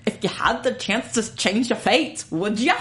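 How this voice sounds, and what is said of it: Weak put-on Scottish accent. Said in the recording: “your Scottish accent ... It's so bad ... I think it's gotten worse since I did it last year. I really need to practice.”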